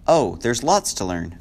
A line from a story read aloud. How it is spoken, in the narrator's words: Fiona replied